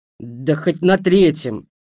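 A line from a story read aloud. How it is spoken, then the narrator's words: Snapped. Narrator (Russian): огрызнулся я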